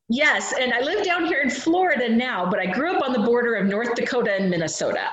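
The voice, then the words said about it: Dakotan accent. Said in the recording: “your accent is Dakotan”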